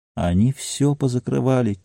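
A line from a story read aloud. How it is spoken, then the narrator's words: Quiet. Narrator (Russian): тихо ответил Норкинс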